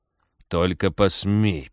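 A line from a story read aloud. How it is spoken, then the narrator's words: Hissed under breath. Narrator (Russian): прошипел спецагент себе под нос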